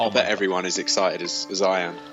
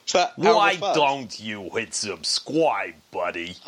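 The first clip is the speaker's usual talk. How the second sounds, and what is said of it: Put-on New York accent. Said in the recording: “that's my New York accent.”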